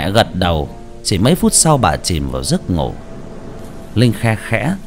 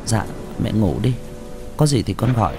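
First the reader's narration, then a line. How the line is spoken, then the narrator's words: Soft gentle voice. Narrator (Vietnamese): Linh khẽ nói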